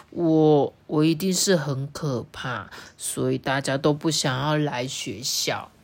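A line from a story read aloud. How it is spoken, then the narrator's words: Murmuring to oneself. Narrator (Chinese): 这个学校就喃喃自语的说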